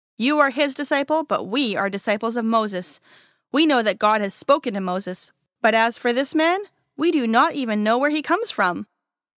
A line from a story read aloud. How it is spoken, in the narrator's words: the Pharisees felt insulted and said to him sternly